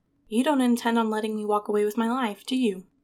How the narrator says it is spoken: she asks

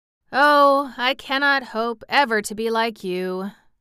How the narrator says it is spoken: sighed the sawhorse

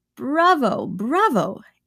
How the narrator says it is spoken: exclaimed I, with irrepressible enthusiasm

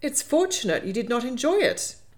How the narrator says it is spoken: April said indignantly

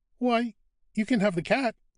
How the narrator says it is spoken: Caro answered merrily

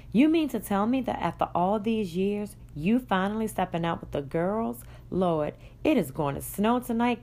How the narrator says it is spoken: Kelly exclaimed

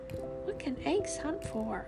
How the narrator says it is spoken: His driver laughed

